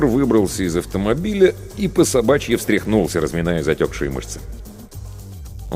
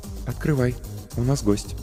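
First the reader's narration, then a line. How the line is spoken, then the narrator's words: Quiet, from behind. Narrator (Russian): негромко сказала Ольга позади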